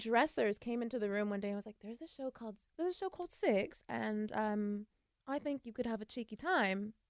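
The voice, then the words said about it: Terrible put-on accent. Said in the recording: “That was a terrible accent.”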